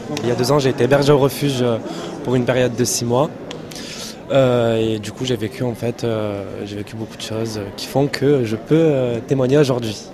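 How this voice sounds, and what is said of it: Marseille French accent. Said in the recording (French): “Vous avez un petit accent ? ... De Marseille. Ça s'entend beaucoup.”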